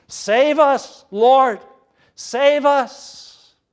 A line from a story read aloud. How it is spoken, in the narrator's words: saints who cried out many a time